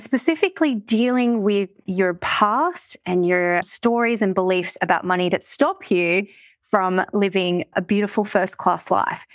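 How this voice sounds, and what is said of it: Australian accent. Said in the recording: “I live in Australia, if you can't tell by my accent.”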